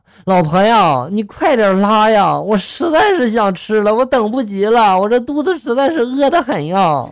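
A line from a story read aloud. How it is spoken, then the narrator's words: Shouting. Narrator (Chinese): 老公又在厕所门口喊了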